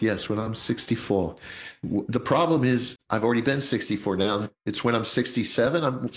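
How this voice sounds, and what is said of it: Usual voice. Nothing is said of it.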